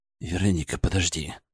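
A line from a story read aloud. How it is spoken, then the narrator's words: Mumbled. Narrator (Russian): пробормотал я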